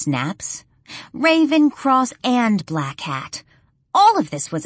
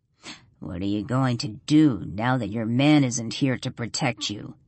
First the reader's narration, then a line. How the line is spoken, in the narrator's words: He sneers